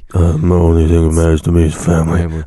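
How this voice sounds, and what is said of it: Quiet mumbling imitation of another person's voice. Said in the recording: “Vin Diesel, can you speak up, please? ... Can you stop mumbling? ... We have the mic turned up all the way. We can't hear you.”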